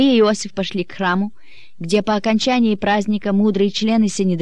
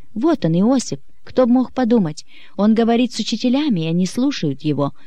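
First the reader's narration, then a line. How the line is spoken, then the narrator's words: Excited relieved whisper. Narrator (Russian): взволнованно прошептала Мария, облегченно вздыхая от радости, что мальчик найден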